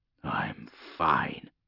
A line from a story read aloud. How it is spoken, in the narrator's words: he muttered to himself